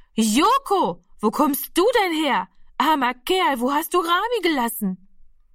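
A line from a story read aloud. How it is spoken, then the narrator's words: Loud woman calling. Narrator (German): rief sie so laut, dass alle herbeigerannt kommen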